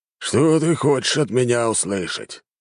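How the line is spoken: Commander's irritable grumble. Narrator (Russian): раздражительно проворчал командующий

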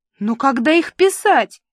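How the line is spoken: Wailing. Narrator (Russian): взвыла

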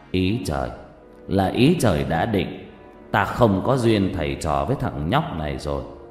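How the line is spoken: Sighing, resigned. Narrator (Vietnamese): thầy Năm thở dài

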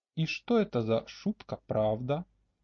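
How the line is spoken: Breathless purring. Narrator (Russian): мурлыкнула Аталетта, чтобы перевести дыхание

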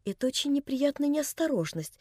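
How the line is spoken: Calm old man. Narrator (Russian): спокойно сказал старичок

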